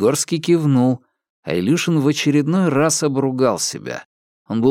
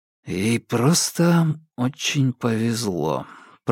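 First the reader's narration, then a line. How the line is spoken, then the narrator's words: Muttered under breath. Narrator (Russian): пробормотал он себе под нос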